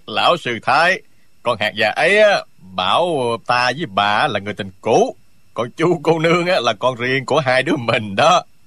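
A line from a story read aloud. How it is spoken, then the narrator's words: Triumphant burst of laughter. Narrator (Vietnamese): Phạm Giao tuy đang trong cảnh nguy nan vẫn cười phá lên hết sức đắc chí, y nói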